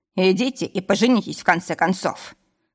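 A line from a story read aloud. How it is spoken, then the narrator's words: Deep barking shout. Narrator (Russian): рявкнул басом Якуб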